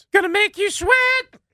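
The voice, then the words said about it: Sung line in falsetto. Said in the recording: “No falsetto from you.”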